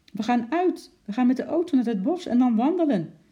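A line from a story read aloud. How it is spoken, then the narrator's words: Calling out. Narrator (Dutch): riep Lotje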